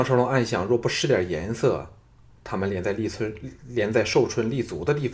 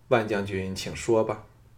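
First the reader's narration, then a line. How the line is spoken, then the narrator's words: Cool, flat. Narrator (Chinese): 李嫣嫣淡淡的说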